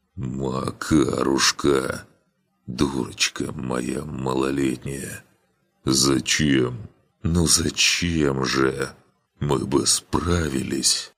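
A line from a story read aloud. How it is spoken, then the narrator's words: Quiet whimpering. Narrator (Russian): Друмир тихонько скулил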